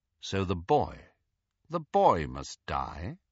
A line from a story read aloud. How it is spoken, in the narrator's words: asked Snape, quite calmly